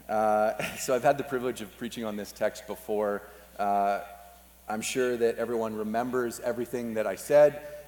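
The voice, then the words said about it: Hoarse, fading voice. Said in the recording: “I have been slowly losing my voice ... sounding like a prepubescent boy”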